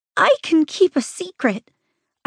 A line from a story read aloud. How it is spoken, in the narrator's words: I squeak out